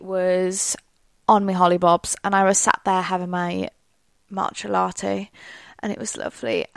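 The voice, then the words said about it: Welsh accent. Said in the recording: “if you hadn't figured out my accent already, it's Welsh ... To me, I feel like I sound very obviously Welsh”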